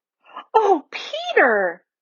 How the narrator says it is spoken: exclaimed Lucy

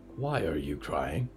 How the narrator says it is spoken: Diggory whispered

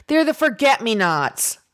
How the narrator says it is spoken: Saoirse finally shouts

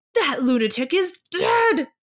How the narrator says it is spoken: Mo Zhiyuan has never been scolded before and cries furiously

